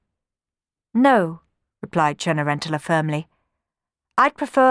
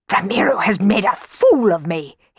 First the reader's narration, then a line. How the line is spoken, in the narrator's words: he spluttered